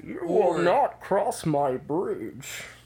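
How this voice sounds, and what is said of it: Bane impression. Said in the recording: “good Bane impression”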